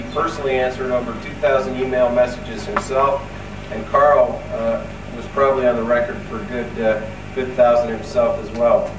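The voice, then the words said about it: American accent. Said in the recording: “I have a funny American accent”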